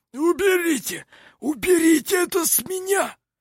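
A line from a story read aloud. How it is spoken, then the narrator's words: Hoarse wheeze. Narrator (Russian): прохрипел он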